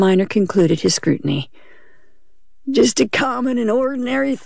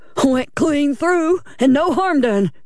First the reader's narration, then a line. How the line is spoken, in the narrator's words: he cried jubilantly